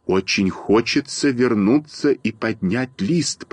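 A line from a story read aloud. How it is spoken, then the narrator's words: Whisper. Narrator (Russian): прошептал Малинин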